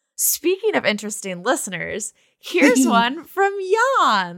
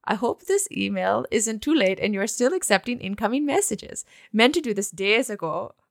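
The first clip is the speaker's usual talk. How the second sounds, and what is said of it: Bad put-on accent, Russian-like. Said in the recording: “Oh, that's Russian... This accent is so bad... No, it's perfect... like Wisconsin”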